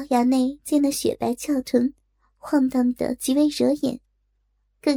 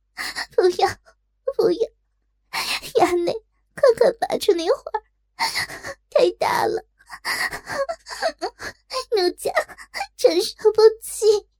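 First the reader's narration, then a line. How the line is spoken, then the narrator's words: Coquettish sobbing. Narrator (Chinese): 娇哭道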